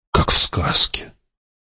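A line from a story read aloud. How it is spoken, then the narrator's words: Whispered. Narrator (Russian): прошептал Пауль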